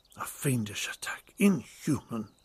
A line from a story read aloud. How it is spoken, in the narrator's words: he muttered